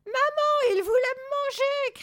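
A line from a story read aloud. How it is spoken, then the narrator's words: Chick's cry. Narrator (French): cria le poussin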